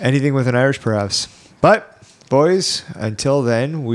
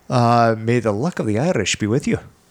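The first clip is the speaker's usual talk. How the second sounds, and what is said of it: Put-on Irish accent. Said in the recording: “That's a good accent.”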